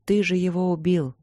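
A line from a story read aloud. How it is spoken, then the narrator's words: Sad. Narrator (Russian): грустно сказала Ипоталия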